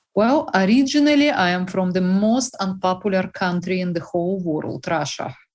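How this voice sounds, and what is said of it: Russian accent. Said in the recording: “I hope you can understand my accent, which is very tricky ... It's beautiful.”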